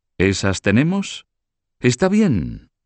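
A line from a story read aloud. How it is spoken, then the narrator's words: Exclaimed. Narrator (Spanish): exclamó Carlos de Valois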